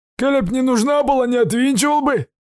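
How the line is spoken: Hoarse rasp. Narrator (Russian): хрипит Денис

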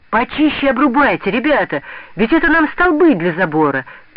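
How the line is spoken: Shout. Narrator (Russian): кричал он пятиклассникам

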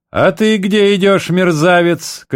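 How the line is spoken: Shouted. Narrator (Russian): крикнул поручик Непшетшетский на другого солдата

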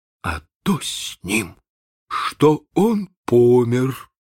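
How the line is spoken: Dull muffled reply. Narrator (Russian): отвечал глухо Чекко

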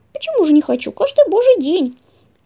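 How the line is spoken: Cheerful little mouse. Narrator (Russian): весело ответил лазающий мышонок

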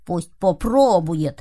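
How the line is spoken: Grumbling. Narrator (Russian): проворчал Кузька

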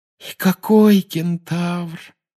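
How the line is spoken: Sigh. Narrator (Russian): вздохнула Парвати

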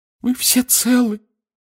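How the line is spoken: Distraught sobbing. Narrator (Russian): всхлипнула миссис Уизли, в смятении

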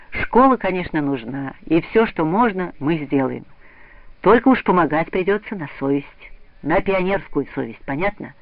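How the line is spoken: Kind and serious. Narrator (Russian): товарищ Круглов ласково и серьезно сказал им

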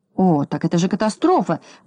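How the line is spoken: Exclamation. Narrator (Russian): воскликнул господин Крабс

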